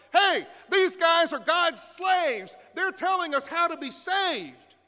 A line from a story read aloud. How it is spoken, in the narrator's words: shouting